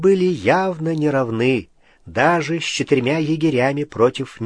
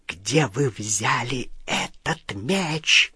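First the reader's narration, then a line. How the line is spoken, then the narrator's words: Hissed. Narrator (Russian): прошипела она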